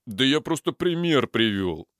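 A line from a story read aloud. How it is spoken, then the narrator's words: Indignant reply. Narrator (Russian): возмущенно ответил Пуля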